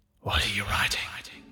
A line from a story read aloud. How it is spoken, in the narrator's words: hissed voice